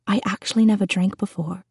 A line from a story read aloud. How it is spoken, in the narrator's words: I tell her in a whisper